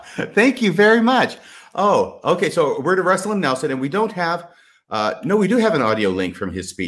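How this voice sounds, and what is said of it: Usual voice. Nothing is said of it.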